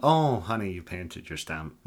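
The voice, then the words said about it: Put-on Irish accent. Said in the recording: “I don't know why I gave him an Irish accent.”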